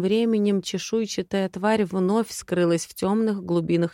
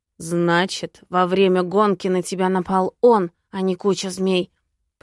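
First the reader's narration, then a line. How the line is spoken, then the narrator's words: Growling. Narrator (Russian): прорычал Лузарус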